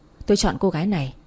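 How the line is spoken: Soft speech. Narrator (Vietnamese): làn môi mỏng khẽ nói

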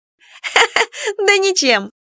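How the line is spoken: Laughing. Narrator (Russian): рассмеялась подруга

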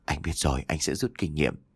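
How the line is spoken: Soft sheepish laughing reply. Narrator (Vietnamese): cười trừ khẽ đáp

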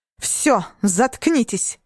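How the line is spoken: Barking sergeant-like mother. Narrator (Russian): рявкнула мама своим сержантским голосом

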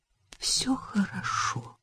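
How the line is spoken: Encouraging whisper. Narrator (Russian): поощрительно прошептала она

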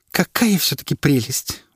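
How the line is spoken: Exclamation. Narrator (Russian): воскликнула она

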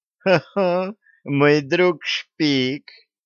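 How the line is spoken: Drunken voice. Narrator (Russian): сказала девушка пьяным голосом

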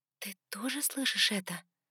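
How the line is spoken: Quiet question. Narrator (Russian): тихо спросила

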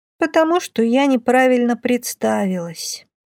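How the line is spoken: Heavy sigh. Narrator (Russian): тяжело вздохнула Кроха

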